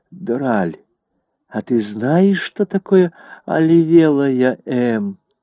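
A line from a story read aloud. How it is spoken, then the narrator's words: Whispered. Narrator (Russian): Дуа шепнула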